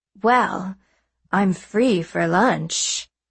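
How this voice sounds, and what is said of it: Husky, sultry imitated voice. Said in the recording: “put on my huskiest Tallulah voice.”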